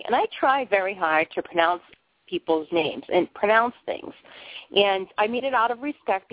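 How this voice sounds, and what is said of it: Boston accent. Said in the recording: “I have a funny Boston accent. Really, really, I really talk funny.”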